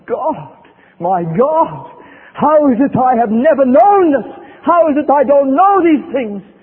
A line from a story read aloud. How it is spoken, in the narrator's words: she cried out from the depths of her soul